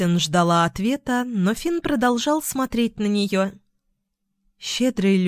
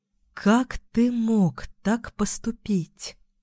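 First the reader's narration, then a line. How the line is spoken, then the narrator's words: Hollow-voiced question. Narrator (Russian): Пустым голосом спросила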